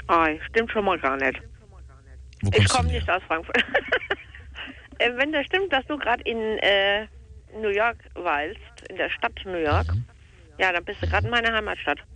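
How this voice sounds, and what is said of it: Slight Frankfurt dialect. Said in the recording (German): “das hört man noch ein bisschen am Dialekt noch ... Ein kleines bisschen ... Also Frankfurter Dialekt”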